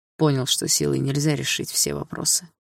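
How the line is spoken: Snorting. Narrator (Russian): фыркнул Дима

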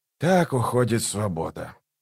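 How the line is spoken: Mutter. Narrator (Russian): пробормотал

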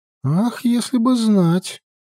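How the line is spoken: Sighing. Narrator (Russian): вздохнула Фьямма

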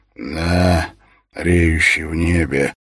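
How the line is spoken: Hoarse old general. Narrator (Russian): ответил сиплым голосом генерал

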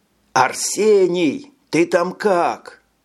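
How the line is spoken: Fearful shout. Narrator (Russian): Закричал он, боясь не увидеть Чино

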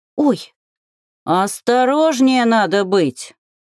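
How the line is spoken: Angry snort, old dwarf. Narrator (Russian): Зло фыркнул пожилой гном

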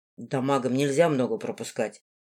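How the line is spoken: Calm. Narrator (Russian): спокойно сказал он

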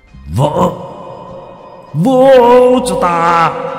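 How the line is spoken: Roaring. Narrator (Vietnamese): Trung hội gầm lên

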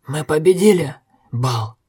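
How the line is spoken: Hoarse wheeze. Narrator (Russian): просипел Огерт

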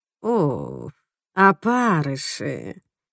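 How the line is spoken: Mumbling. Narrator (Russian): бормочет Доди

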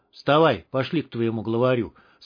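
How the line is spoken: Calm. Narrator (Russian): спокойно ответил Долговец

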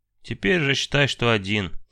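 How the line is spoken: Heavy sigh. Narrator (Russian): тяжело вздохнув, он

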